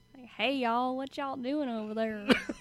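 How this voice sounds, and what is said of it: Clichéd put-on Southern accent. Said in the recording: “That sounds like cliche Southern.”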